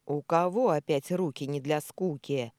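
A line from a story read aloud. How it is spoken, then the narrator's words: Stern bark, hidden smile. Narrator (Russian): Рявкнула грозно, пряча улыбку поглубже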